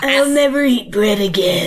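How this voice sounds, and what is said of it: Weird demon-like character voice. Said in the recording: “my first attempt at a character voice ... You sounded like a demon. ... I sounded like so weird.”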